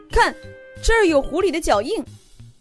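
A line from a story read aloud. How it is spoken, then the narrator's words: Sudden cry. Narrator (Chinese): 毛毛突然叫了起来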